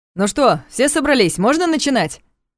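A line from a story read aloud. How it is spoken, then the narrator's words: Loud question. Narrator (Russian): Громко спросил Николаев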